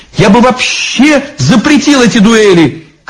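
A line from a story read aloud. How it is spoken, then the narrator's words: Shouting. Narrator (Russian): крикнул бледный Ленский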